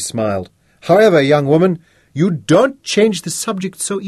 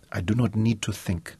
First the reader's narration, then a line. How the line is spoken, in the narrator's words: she said softly